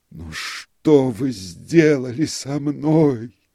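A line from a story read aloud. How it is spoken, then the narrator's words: Groaning. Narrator (Russian): простонал он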